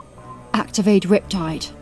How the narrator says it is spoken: I breathed into my mic

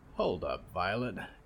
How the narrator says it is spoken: grunted

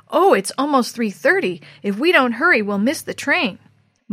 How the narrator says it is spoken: glanced anxiously exclaimed

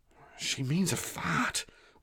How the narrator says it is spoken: whispered Oscar to the amusement of the pair

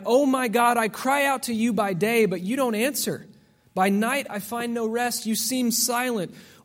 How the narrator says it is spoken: like David when he cried

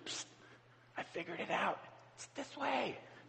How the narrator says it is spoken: he whispers

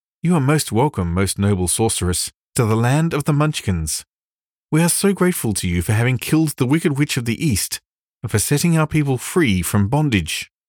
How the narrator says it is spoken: the little old woman said in a sweet voice

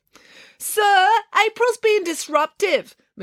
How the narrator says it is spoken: Matilda called out to Mr

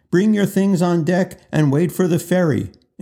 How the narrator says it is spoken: A sailor comes through the crowd shouting

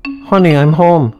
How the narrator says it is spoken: called out to his wife

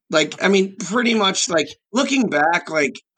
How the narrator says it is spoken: I cried

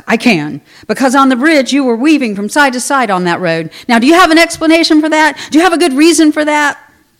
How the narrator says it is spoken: barked

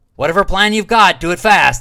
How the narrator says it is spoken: Huff shouted

